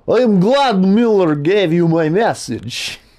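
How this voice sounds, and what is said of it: Put-on Russian accent. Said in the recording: “it's Russian. The Russian accent.”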